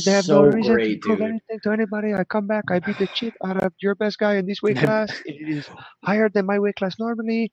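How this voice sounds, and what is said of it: French-Canadian accent drifting toward Mexican. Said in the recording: “You evolved into Mexican or something there, dude. You fucked up your accent. You started out really, French-Canadian.”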